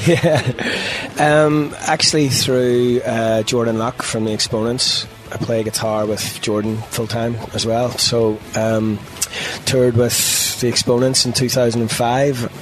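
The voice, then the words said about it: Irish accent. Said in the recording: “You've obviously got an accent. ... Yeah, Irishman.”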